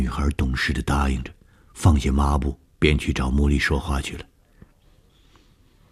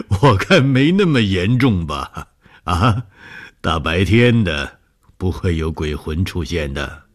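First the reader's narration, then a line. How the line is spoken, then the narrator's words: Laughing. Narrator (Chinese): 红鱼笑了说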